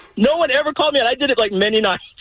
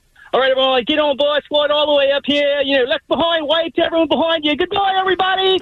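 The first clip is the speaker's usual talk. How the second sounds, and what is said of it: Put-on Australian accent. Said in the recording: “I would just start an Australian accent as people would get on my ship ... Yeah, pretty good.”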